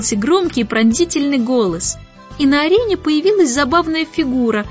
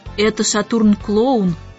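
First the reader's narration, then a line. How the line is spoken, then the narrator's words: Whisper. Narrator (Russian): шепнул ребятам Орион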